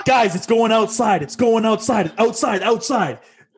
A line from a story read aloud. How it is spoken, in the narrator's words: starts yelling out